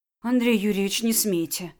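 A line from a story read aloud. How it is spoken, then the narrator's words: Trembling voice. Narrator (Russian): дрогнувшим голосом проговорила Настя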